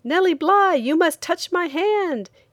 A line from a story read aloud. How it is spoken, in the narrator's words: said excitedly